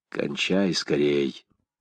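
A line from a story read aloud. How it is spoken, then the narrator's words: Whisper. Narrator (Russian): кузену прошептал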